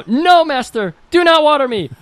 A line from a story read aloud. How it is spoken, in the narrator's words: The plant cried out